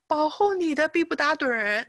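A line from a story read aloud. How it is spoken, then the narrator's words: Congregation shouting in unison. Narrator (Chinese): 全教会的人同时大声的赞美神，同时的在喊着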